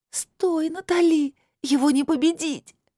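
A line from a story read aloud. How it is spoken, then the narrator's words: Pleading. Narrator (Russian): взмолилась Лилит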